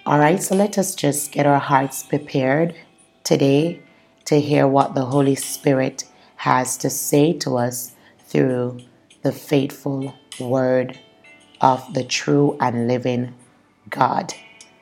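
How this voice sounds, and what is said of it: Slightly hoarse voice. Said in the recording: “my throat is a little bit hoarse, so please forgive me if I don't sound like my usual self”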